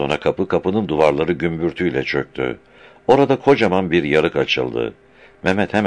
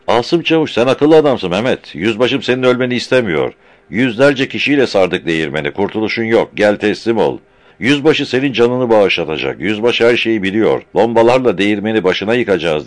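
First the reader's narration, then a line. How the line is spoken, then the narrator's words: Shouting. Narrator (Turkish): diye bağırdı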